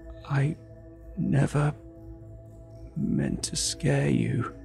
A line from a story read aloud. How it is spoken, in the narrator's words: he rasped, his voice torn and ragged, struggling to emerge between shallow breaths